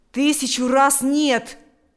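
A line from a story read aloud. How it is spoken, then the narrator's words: Loud protest. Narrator (Russian): громко запротестовал Миронов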